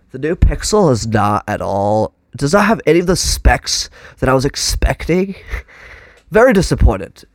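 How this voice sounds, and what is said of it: Congested, stuffed-up voice. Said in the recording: “this is not far off from how I'd sound right now because I'm so stopped up”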